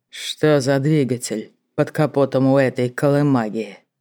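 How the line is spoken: Dull, even-voiced question. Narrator (Russian): Раздался глухой, произнесенный ровным голосом вопрос

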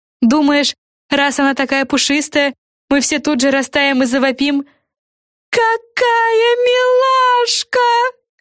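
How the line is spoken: Shrieking. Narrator (Russian): завопила Френ

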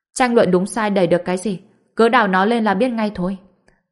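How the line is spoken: Cold reply. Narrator (Vietnamese): Mộc Dịch lạnh lùng đáp

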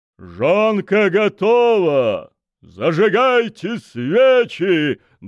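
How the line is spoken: Loud proclamation. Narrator (Russian): громко провозгласил майор

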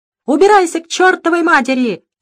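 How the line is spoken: Yelling householder. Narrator (Russian): заорал на нее хозяин дома

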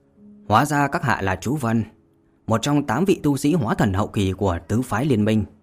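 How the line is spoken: Cold woman. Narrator (Vietnamese): Nữ tử áo trắng kia lạnh lùng và nói

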